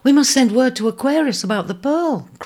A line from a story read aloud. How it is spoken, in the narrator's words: cried Bisona